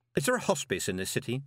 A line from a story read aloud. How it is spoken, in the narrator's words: he said